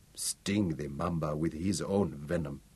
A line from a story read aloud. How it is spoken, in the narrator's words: he murmured